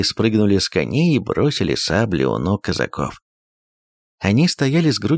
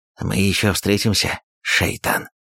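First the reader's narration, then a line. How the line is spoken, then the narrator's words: Hiss. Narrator (Russian): прошипел один из ногаев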